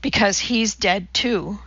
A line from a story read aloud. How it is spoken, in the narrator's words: she sighed